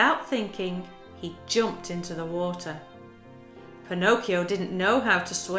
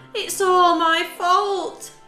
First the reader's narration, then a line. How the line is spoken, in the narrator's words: he wailed